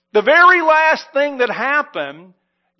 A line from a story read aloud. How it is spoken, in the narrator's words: shouted